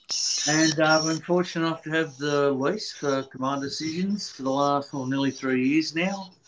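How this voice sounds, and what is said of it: Australian accent. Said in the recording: “I'm Australian, as you'll hear from the accent.”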